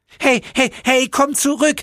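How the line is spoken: Angry shout. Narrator (German): schrie der Höllenengel ihnen wütend hinterher

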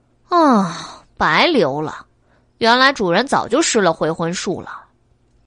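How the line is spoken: Sighing. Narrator (Chinese): 黎奴叹了一口气

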